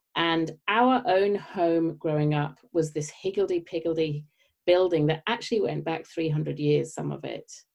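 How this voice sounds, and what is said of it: British accent. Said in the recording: “as you may tell from my accent, I grew up in the UK”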